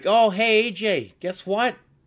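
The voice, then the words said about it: Poor put-on Boston accent. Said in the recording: “That's a terrible Boston accent.”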